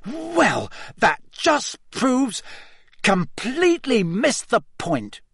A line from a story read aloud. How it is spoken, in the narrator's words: he sputtered, looking thunderstruck